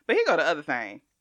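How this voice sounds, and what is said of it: Southern twang. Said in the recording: “my Southern twang”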